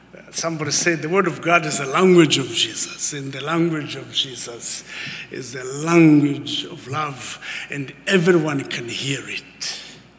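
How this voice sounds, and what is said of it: Scottish accent. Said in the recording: “my Scottish accent ... she actually thought I had a Scottish accent”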